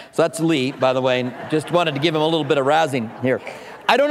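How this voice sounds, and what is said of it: Usual voice. Nothing is said of it.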